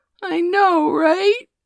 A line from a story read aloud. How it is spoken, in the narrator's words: Maddie gasped